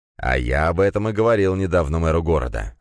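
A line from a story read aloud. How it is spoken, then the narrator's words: Plain. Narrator (Russian): ответил Черепов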